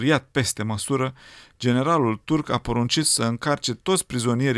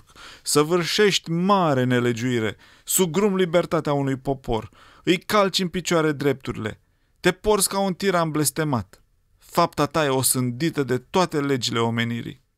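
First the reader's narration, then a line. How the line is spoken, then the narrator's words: Shouted. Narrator (Romanian): El a strigat către generalul turc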